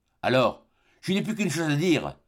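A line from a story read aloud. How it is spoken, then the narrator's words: Exclaimed. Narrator (French): s'écria Glenarvan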